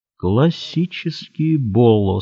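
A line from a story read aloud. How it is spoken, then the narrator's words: Said slowly. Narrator (Russian): сказал Смолин медленно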